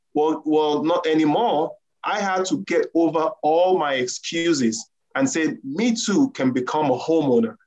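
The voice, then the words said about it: Nigerian accent. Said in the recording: “I'm a Nigerian and I have an accent.”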